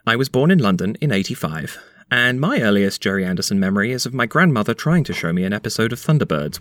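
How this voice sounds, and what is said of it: British accent. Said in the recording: “as you can probably tell from my voice, I'm from the UK originally”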